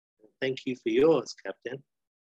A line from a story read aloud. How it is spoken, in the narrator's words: Annie closes the door and then says to herself quietly